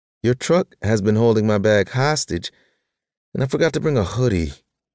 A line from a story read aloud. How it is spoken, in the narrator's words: she sighed